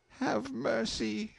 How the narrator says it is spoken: she pleaded

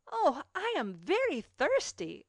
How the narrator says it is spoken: exclaimed Cecil

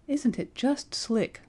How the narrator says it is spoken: sighed Betty

